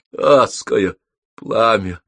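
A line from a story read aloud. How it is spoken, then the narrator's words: Muffled complaint. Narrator (Russian): глухо пожаловался он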